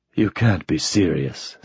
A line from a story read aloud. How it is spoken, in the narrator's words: said Mike, in a soft voice that was suddenly quite sober